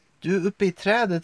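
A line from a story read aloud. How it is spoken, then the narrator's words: Shouted. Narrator (Swedish): ropade Denji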